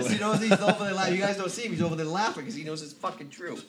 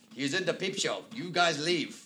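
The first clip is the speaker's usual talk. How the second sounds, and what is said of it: Bad fake French accent. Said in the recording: “that's a horrible French accent”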